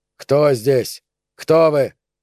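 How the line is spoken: Shout. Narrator (Russian): крикнул

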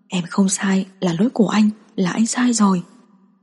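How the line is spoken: Heartbroken murmur. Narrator (Vietnamese): Đường Dịch Nghiêu tràn đầy đau lòng, lẩm bẩm

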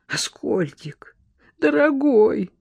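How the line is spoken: Trembling voice. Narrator (Russian): дрожащим голосом произнес Леня

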